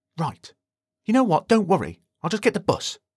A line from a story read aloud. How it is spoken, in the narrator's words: snapped Justin in a quiet voice